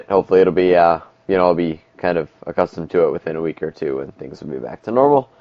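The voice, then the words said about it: Slightly nasal, raspy voice. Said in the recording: “my allergies have flared up, so if I'm sounding a little bit nasally or a little bit raspy, well, it's because I am a little bit nasally and a little bit raspy”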